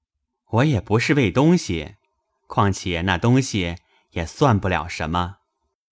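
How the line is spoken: Laughing. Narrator (Chinese): 贾云也笑道

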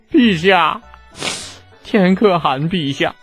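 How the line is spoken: Crying, aggrieved. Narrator (Chinese): 黄喜木是越想越委屈，哭着叫道

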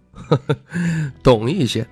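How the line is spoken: Laughing. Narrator (Chinese): 徐凤年笑道

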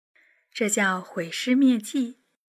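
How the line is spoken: Soft laughing voice. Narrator (Chinese): 轻声笑着说

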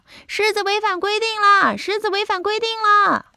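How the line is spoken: Shouting while walking. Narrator (Chinese): 他边走边叫

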